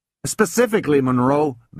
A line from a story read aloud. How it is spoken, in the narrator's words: begged Wiley White